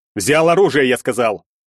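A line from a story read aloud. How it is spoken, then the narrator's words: Thunderous bark. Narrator (Russian): Рявкнул Бартынов так, что задрожали стекла в окнах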